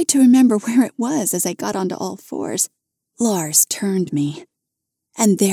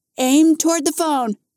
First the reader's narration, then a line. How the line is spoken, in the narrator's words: Nikki called out